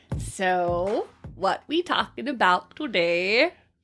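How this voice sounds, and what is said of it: Weird put-on accent. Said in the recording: “I don't know where that weird accent came from ... You talk about my accent”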